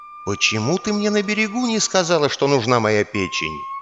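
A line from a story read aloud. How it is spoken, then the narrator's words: Quiet but audible to all. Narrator (Russian): сказал он тихо, но так, чтобы слышали все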